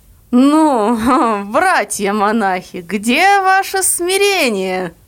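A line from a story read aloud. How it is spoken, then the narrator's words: Ringing voice with chuckle. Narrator (Russian): сказал звучно с хохотком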